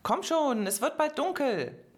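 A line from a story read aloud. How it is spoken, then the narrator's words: Called out again. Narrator (German): rief Pedro erneut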